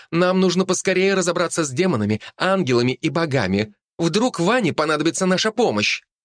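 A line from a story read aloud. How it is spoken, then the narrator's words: Exclaiming fox. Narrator (Russian): воскликнула белая лисица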